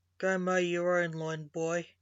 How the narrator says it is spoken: grumbled the grandfather, annoyed

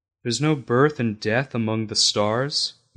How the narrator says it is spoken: Mother asked

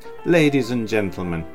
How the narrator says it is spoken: he began again in a louder voice

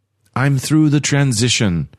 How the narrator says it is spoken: she said

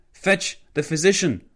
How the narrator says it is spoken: House yelled at Flanagan

